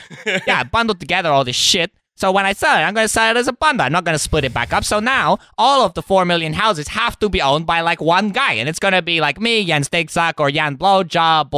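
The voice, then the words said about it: Silly put-on character voice. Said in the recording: “doing a stupid voice”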